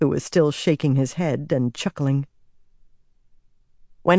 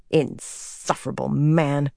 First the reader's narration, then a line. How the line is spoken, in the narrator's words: she muttered